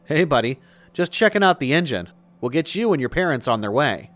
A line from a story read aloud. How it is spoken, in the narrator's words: I quickly blurted out